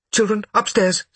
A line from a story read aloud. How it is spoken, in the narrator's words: said Mother quickly